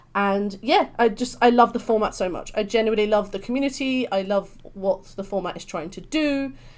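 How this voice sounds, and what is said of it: British London accent. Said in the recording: “I'm from London, so hence this beautiful British accent.”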